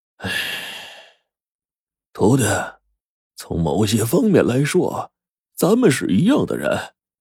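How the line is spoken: Old man long sigh. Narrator (Chinese): 胡老道抚须长叹说

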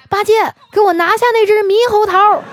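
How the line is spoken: Sudden shout. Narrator (Chinese): 突然，这唐僧就大喊

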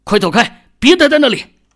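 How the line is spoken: Anxious shout. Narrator (Chinese): 秦宇着急的冲王二喊道

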